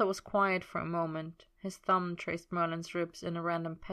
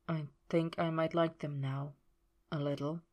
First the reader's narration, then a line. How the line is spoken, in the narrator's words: he murmured